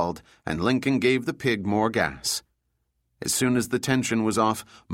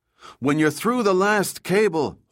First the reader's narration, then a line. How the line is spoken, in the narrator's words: Juan shouted into the radio